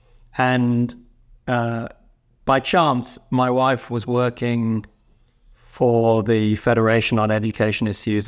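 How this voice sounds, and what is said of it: Non-North American accent. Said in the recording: “As you can tell from my accent, I didn't grow up in North America”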